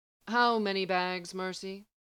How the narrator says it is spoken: he asked dryly

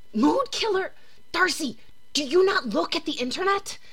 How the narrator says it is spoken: The voice hisses again

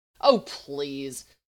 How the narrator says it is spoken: Stark snorted

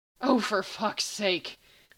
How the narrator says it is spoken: Sam grumbled

